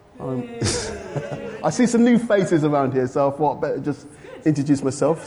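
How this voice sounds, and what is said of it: London English accent. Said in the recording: “I was from London originally, so my London accent, you know, just have to live with, I'm afraid”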